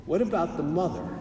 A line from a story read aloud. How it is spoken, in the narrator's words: very quietly he said